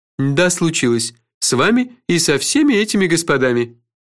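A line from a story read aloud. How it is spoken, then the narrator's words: Dry. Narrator (Russian): сухо сказал Кофа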